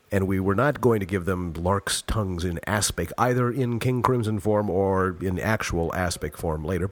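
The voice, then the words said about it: Congested, nasal voice. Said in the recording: “my voice is completely in my nose today because I'm getting over a cold. Everything is in my nose.”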